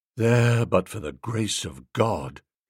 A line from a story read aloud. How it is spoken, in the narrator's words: he said in a low voice